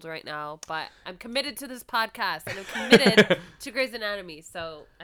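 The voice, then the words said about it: Rough, congested voice. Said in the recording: “you can probably tell my voice is fucked up. I have a cold ... You're congested this week.”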